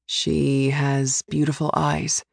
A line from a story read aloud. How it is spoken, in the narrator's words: he says softly, like he's lost a memory